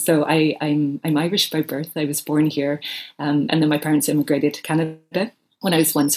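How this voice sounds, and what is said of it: Mixed, hard-to-place accent. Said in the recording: “my mishmash of an accent”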